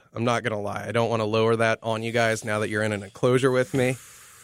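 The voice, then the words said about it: Voice with a cold. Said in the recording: “I've got a bit of a cold.”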